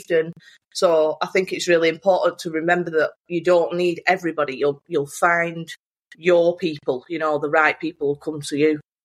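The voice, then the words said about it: Northern English accent. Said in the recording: “you did have a Northern accent ... more kind of genuine ... relatable ... a bit different than perfectly polished kind of American or London toes”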